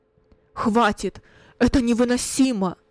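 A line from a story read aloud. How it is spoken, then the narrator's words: Loud, trembling voice. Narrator (Russian): произнес громко Кунерих дрожащим голосом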